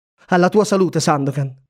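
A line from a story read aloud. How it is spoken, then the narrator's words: Plain. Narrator (Italian): rispose l'amico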